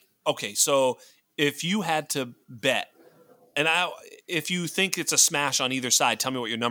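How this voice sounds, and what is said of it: Usual voice. Nothing is said of it.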